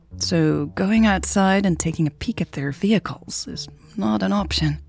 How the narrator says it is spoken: Turner mumbled

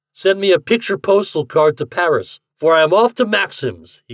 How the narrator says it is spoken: cried

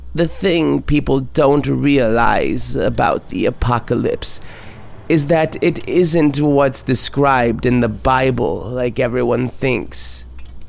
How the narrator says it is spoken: She said in between chuckles

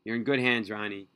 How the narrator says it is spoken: he said

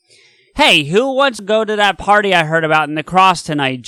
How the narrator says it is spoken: yells, completely out of the blue

